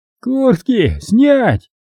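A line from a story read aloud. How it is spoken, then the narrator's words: Wheezy rasp. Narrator (Russian): просипел Мадаев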